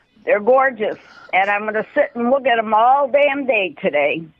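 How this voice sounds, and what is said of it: Put-on Chicago accent. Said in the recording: “That Chicago accent, man. ... That's ... doing a voice.”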